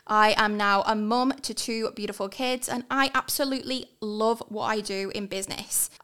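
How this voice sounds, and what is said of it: English accent. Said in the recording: “I am obviously a POM, you can hear from my accent”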